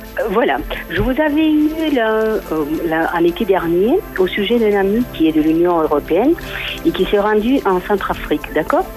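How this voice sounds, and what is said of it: Slight southern French accent. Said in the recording (French): “vous avez un accent du sud ... vous semblez que vous aviez un petit peu un accent du sud de la France”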